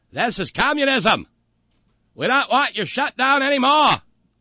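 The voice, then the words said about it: Deliberately bad New England accent. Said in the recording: “This is my terrible New England accent”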